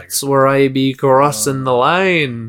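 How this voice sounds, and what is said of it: Put-on accent. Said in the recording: “Why do you keep doing accents?”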